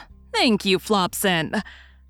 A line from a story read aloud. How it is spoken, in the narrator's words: Pocket laughed and said